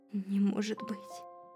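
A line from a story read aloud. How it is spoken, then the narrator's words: Trembling voice. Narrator (Russian): произнес он дрогнувшим голосом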